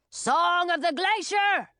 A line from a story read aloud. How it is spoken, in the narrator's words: shouted Frosty Breath